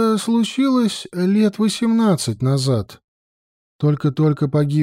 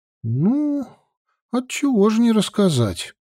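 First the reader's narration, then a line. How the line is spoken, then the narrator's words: Deep sigh, then speaking. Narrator (Russian): Даниэль глубоко вздохнул и заговорил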